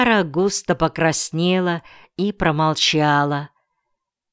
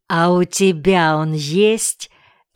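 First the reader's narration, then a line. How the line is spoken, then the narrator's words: Snide question. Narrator (Russian): ехидно спросил Каюн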